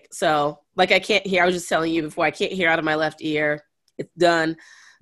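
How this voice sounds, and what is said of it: Sick, slightly deeper voice. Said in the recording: “I've been sick... My voice is a little bit deeper.”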